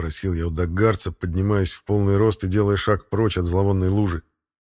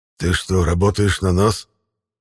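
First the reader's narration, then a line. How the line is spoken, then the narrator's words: Surprised wheezing half-whisper. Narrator (Russian): Даже в хрипящем полушепоте послышалось удивление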